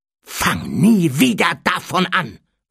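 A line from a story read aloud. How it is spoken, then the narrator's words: Hissed. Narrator (German): fauchte Harry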